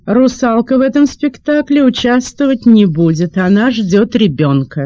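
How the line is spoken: Loud statement. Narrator (Russian): кто-то в театре громко сказал

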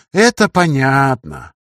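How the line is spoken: Drawling. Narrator (Russian): протянул Радюкин

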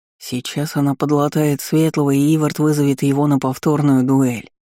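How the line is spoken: Deep voice with chuckle. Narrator (Russian): пробасил со смешком здоровяк Элвин

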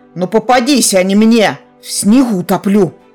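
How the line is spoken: Wizard growling at crowd. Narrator (Russian): Рыкнул в толпу кудесник

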